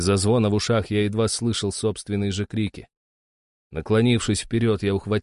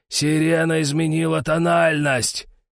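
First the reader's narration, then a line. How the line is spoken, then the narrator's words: Roared. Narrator (Russian): проревел старший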